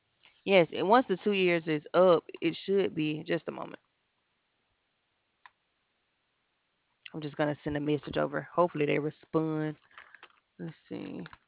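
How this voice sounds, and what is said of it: Southern US Alabama accent. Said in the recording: “Where's that lovely accent from? ... I'm from Alabama.”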